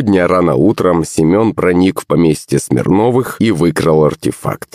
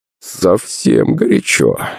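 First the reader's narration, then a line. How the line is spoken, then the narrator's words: Laughing. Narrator (Russian): рассмеялся Демидов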